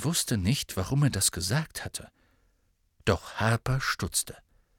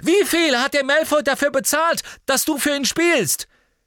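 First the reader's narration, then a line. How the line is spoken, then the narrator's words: Desperate shout. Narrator (German): rief Harry in seiner Verzweiflung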